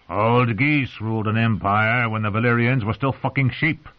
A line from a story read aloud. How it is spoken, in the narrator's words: he growled at the poor little scribe